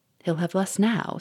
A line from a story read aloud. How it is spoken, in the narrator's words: said dryly